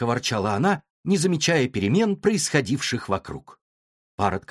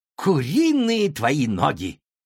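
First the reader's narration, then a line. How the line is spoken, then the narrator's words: Sharp cry. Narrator (Russian): вскрикнула Юа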